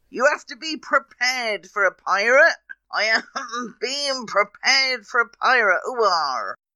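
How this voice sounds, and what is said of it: Put-on West Country pirate accent. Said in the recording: “See, I've even got a West Country accent now.”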